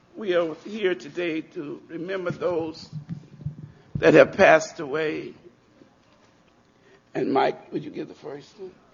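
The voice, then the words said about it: Raspy voice. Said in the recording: “forgive my voice, I have asthma. Very raspy.”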